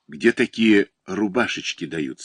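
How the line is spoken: Plain question. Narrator (Russian): спросил я брюнета

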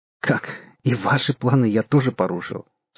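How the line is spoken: Question after laughing. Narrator (Russian): спросил он, отсмеявшись

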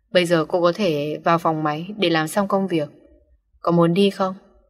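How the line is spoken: Cold authoritative question. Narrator (Vietnamese): Lưu Viễn hỏi với cái giọng lạnh lùng ra dáng một phó giám đốc chính hiệu

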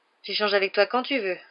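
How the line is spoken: Sighing. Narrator (French): soupira Harry

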